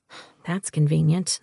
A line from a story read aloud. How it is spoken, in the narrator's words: I muttered